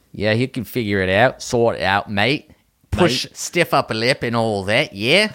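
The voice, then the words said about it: Mixed British and Australian accent. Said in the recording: “You mixed two accents just now, like the British and the Australian. It's a stiff upper lip and all that with the Australian.”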